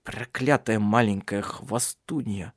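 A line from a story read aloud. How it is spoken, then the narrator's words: Furious hiss. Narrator (Russian): прошипел Тарья, приходя в ярость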